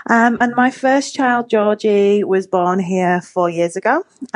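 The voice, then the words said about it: English accent. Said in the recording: “my accent is, I am English”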